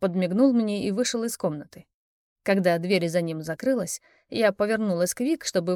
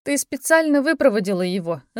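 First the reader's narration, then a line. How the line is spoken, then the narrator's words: Laughing. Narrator (Russian): засмеялась я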